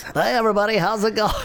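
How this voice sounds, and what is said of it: Announcer-style radio voice. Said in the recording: “I'm just using my radio voice.”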